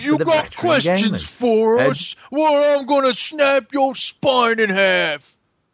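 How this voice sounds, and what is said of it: Menacing orc monster voice. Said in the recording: “That was my impression of an Uruk from Shadow.”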